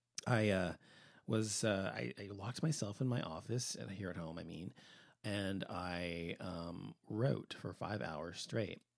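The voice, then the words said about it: Hoarse voice. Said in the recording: “I guess I'm so hoarse because I haven't been talking all day long”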